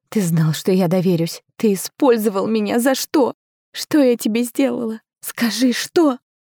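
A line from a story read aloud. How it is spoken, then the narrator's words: Loud wheezing convulsive sobbing. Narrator (Russian): Я рыдала, не тихо, не сдержанно, а по-настоящему, с хрипом, с судорогами, с проклятиями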